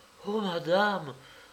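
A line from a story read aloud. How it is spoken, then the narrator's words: Whispered. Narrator (French): me dit-elle tout bas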